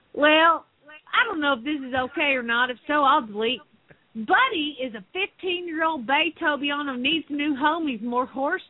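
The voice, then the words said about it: Put-on Southern accent. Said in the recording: “Can you reread that in the Southern accent now, please?”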